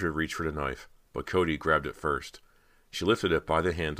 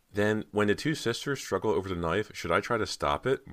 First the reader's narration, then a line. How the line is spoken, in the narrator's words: Marge asked